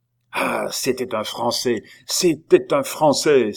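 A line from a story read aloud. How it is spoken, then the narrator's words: Cried out. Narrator (French): s'écria Joyeuse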